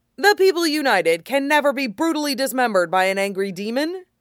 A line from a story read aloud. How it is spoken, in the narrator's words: Fenris snorted